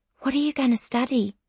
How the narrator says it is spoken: She whispers

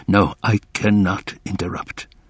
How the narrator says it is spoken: told himself

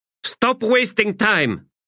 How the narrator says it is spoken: she snapped

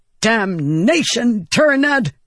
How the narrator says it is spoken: Navani snapped

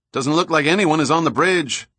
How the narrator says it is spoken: Summer shouted

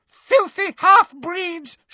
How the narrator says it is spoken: she screamed

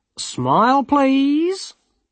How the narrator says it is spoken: said brightly

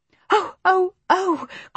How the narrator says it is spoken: cried as she gasped for breath

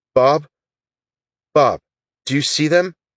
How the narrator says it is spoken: Daniel asked in a shaky voice

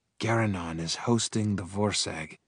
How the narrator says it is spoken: I muttered to myself

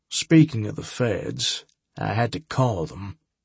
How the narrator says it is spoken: Harbinger said sadly

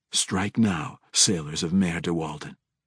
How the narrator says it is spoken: the drow said quietly

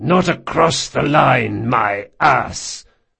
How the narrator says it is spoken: Marcos spat

